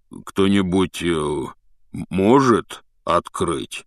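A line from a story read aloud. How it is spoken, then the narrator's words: Dejected question. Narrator (Russian): спросил Хагрид упавшим голосом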